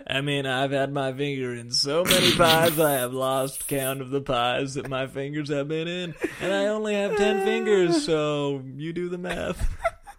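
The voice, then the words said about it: Will Forte impression. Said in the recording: “You make it weird when you do that voice. ... My Will Forte impression.”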